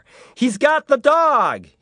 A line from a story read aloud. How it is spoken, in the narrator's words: he shouted to a cop a half block down